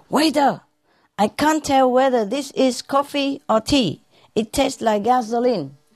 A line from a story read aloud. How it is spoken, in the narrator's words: A customer shouted angrily